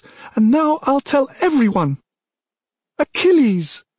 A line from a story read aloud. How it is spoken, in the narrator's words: She screamed as if she would force his name through the stout stone walls, up to the gods themselves